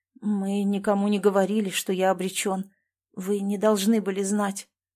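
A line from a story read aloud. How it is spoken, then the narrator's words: Weak voice. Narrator (Russian): слабым голосом произнес он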